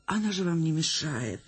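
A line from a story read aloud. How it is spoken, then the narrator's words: Trembling voice, defensive. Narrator (Russian): дрожащим голосом вступилась актриса за свою собачищу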